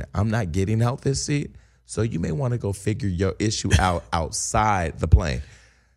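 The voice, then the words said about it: Whispered quoted speech. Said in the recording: “I'm whispering it.”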